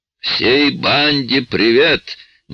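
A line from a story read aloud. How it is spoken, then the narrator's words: Sudden booming voice. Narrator (Russian): неожиданно прогремел голос со стороны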